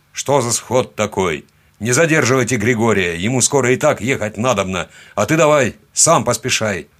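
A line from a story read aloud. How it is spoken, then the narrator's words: Barked command. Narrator (Russian): гаркнул атаман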